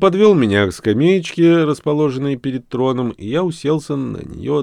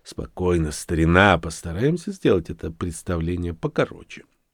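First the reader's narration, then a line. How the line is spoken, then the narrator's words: Soft. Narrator (Russian): тихонько произнес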